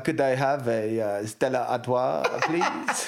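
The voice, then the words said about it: Put-on French accent, 'Allo 'Allo policeman. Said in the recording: “in a French accent ... Do a French accent now? Can you still do it? ... the guy off Hello, Hello, you know, like the policeman off Hello”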